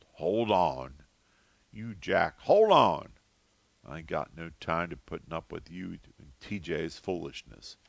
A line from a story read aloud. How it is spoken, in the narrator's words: Big Ma grumbled